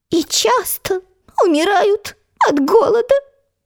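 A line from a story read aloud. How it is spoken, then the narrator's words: Sad squeaky voice. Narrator (Russian): печально пропищал комар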